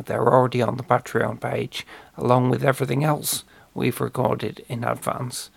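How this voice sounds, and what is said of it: Slightly strained voice. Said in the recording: “my voice is a little bit strained today”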